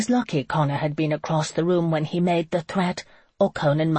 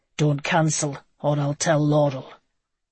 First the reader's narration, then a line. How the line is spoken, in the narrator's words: to growl